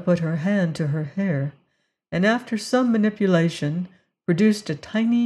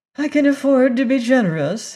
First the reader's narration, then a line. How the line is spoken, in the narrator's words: she said with a little laugh